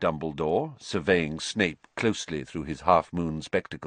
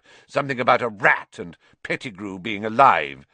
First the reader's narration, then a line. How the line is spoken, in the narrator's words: spat Snape